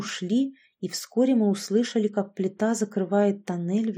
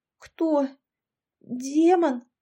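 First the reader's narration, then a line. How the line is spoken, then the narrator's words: Stammering question. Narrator (Russian): заикаясь, поинтересовалась Яшка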